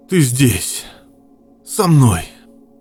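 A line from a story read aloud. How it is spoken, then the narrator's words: Relieved hoarse rasp. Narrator (Russian): Прохрипел с облегчением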